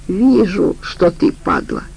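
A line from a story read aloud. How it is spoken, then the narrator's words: Affectionate beaver. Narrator (Russian): ласково сказал бобер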